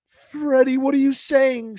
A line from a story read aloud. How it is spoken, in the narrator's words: sobbed fearfully